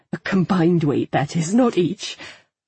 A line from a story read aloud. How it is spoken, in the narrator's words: laughed